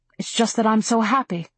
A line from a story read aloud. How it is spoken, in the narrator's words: she said, her voice shaking